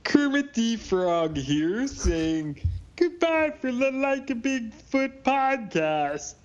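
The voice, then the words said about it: Poor Kermit the Frog impression. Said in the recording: “doing the Like a Bigfoot outro ... That's the worst impression I've ever heard”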